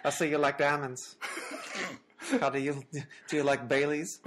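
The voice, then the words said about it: Comedic character voice. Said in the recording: “give him an old Greg voice”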